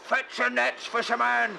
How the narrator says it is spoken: he roared as he leapt ashore

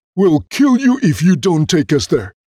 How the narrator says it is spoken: they cried

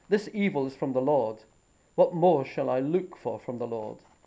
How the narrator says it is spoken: The king, in his desperation he exclaimed

